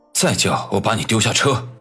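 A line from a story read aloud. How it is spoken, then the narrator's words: Angry threat. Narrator (Chinese): 常青山却不为所动，怒声威胁道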